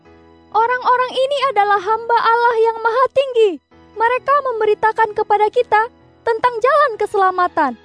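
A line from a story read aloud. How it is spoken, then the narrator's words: Repeated shouting. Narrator (Indonesian): berulang-ulang berteriak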